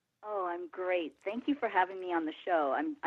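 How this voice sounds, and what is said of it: Slightly froggy, hoarse voice. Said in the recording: “I'm a little froggy because I have a cold”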